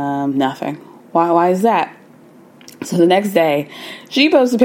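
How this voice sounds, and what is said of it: Usual voice. Nothing is said of it.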